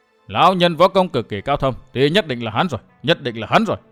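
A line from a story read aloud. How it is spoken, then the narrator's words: Excited muttering to herself. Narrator (Vietnamese): Mụ cao hứng lẩm bẩm một mình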